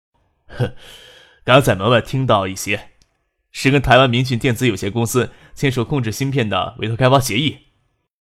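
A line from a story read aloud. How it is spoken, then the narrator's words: Smiling. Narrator (Chinese): 笑了笑，才对周富明说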